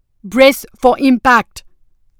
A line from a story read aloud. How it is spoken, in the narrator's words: Kassa shouted